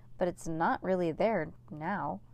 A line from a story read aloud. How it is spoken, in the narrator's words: said Cass slowly